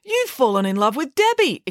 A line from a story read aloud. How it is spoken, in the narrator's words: exclaimed Friday